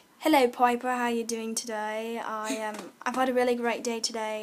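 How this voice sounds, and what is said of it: Put-on English accent. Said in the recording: “Is that your English accent? ... Sure, yeah.”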